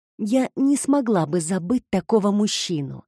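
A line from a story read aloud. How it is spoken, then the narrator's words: Seductive whisper. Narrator (Russian): соблазнительно шепнула Пиппа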